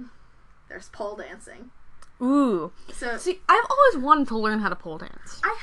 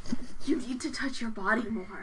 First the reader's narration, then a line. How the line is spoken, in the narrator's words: Anthony whispers